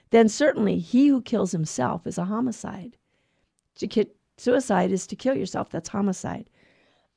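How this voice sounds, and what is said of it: Hoarse, throaty voice. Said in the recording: “I have a frog in my throat.”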